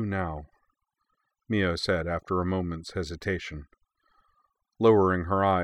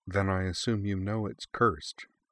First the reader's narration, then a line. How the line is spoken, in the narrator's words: Sakura said in an almost conversational tone of voice